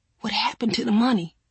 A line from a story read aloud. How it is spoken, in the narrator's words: Mama's voice whispered across the bed